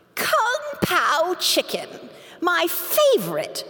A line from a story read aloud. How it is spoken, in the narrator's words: exclaimed